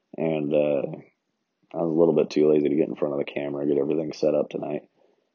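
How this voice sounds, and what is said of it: Sick, rough-sounding voice. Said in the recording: “I'm a little bit sick. That's why my voice sounds like crap.”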